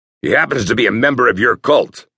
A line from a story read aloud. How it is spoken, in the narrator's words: snapped Sable